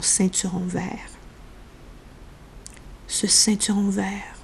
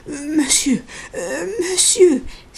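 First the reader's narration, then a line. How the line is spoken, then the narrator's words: Cried out. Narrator (French): s'écria-t-il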